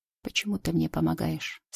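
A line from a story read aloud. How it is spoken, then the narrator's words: Quiet question. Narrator (Russian): спрашивает негромко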